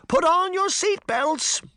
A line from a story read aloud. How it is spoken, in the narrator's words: Grimm turned to the girls and shouted